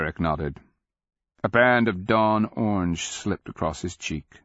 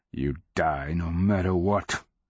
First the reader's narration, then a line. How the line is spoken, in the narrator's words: the captain spat, speaking as if the future were as irrevocable as the past